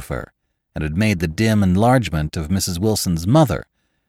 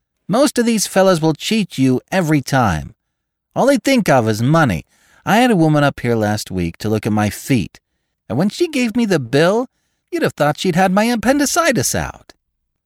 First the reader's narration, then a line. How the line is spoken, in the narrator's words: she told her sister in a high, mincing shout